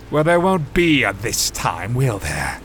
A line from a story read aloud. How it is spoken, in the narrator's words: sneered Darren